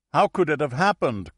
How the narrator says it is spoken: cried the captain of the red team, the dead man's team

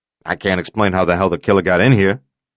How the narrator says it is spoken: Novetsky said irritably

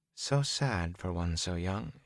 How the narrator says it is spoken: she said softly

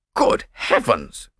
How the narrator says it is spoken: cried the distracted nobleman

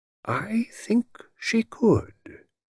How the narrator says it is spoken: he said quietly

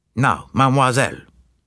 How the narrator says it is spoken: said Poirot in a brisk tone

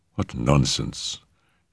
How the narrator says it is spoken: she murmured scornfully

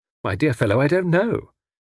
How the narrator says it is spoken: said Tommy cheerfully

